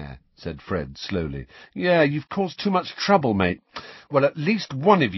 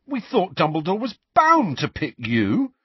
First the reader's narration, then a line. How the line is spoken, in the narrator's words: said George indignantly